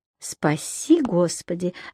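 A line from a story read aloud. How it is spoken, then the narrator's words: Thoughtful priest's voice. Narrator (Russian): задумчиво проговорил батюшка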